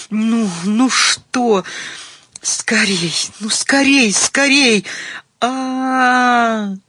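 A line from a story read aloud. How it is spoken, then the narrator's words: Hoarse ecstatic scream. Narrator (Russian): Умирая от экстатической судороги, Таня хрипло закричала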